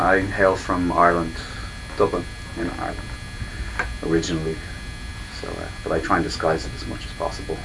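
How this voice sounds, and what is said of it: Irish accent. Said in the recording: “I can tell from your accent you're not from Yonkers.”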